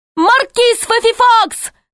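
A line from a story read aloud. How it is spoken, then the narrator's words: Shouted. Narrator (Russian): закричал судья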